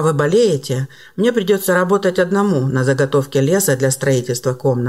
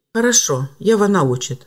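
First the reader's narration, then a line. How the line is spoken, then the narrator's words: Calm reply. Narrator (Russian): спокойно ответил хозяин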